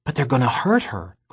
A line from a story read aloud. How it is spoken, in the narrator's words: Gregor whispered back